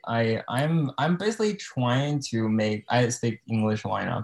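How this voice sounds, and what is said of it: Non-native English accent. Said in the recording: “I still have some accent”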